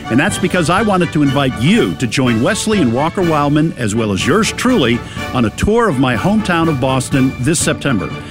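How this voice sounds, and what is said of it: Boston accent. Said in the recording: “it's a Boston accent”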